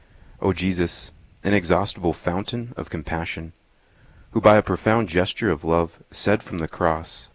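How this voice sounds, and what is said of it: Smooth, resonant radio voice. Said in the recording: “You have a great radio voice.”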